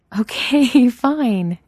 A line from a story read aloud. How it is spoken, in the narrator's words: Chloe laughs